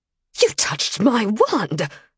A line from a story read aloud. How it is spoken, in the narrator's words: Alassa snapped, her face red with anger